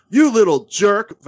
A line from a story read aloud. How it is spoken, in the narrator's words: Vasquez yelled at him